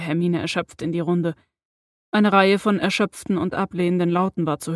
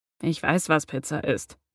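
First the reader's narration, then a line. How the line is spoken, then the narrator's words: Sheepish mumble. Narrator (German): murmelte er kleinlaut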